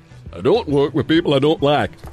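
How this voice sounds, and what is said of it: Imitates another person's voice. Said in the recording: “he's just pitching to do Jack Charlton. Come on, do your voice there.”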